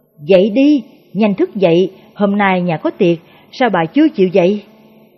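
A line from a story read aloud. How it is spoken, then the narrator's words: Irritated loud scolding. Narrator (Vietnamese): Nghê Cửu gắt gỏng lớn tiếng, vừa gọi vừa quát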